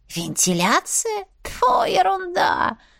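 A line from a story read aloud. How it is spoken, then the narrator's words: Hissed. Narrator (Russian): прошипела Лафифа или Шишида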